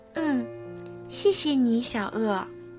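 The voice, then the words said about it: Very small, quiet voice. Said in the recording (Chinese): “兔兔用很小的声音说”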